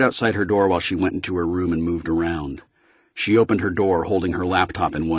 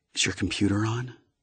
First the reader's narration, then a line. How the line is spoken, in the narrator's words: whispered